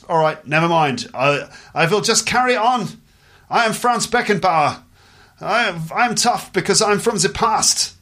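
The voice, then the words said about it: Put-on German accent. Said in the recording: “this is a German accent.”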